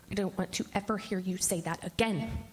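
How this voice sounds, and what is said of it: Mean, stern scolding mother voice. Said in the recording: “in my meanest mommy voice,”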